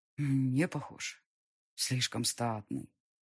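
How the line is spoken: Exhaled. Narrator (Russian): выдохнул прислужник

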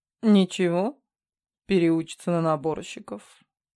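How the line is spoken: Grumbling. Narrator (Russian): буркнула

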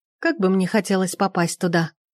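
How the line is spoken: Very sad sigh. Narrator (Russian): Сабина вздохнула так печально, что ей бы позавидовала сама Золушка

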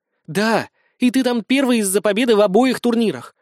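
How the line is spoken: Fervent exclamation. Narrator (Russian): горячо воскликнула Юля

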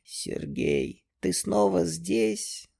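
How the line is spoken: Barely audible voice. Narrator (Russian): произнесла она еле слышным голосом

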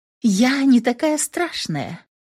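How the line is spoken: Cooing. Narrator (Russian): проворковала я

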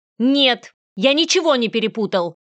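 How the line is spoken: Sharp, confident. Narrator (Russian): Ответил он резко и уверенно

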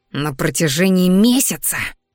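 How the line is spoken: Coach hissing again. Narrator (Russian): вновь зашипел тренер

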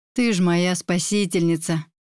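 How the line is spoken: Breathless relieved exclamation. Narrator (Russian): выдохнула я, закончив пить

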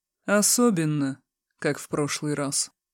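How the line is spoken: Gloomy reply. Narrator (Russian): мрачно отозвалась она

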